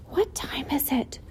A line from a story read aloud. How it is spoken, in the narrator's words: whispered Wilbur to the goose